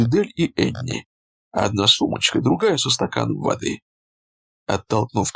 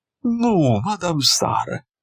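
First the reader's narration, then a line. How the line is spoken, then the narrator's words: Moaning. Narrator (Russian): застонала Энни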